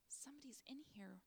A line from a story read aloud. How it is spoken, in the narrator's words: Joshua whispered